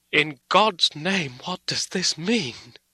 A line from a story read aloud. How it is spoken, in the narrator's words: Harker cried out